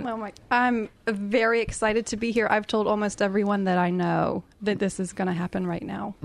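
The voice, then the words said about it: American accent. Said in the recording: “that gorgeous accent? ... Have you heard of the USA?”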